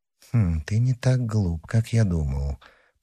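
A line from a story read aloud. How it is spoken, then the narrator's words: Muttered to himself. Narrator (Russian): пробормотал про себя Мазарини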